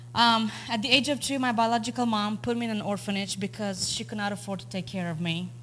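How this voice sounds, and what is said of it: Romanian accent. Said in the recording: “I don't know if you can hear my accent, but I'm not originally from the United States. I'm actually from Romania.”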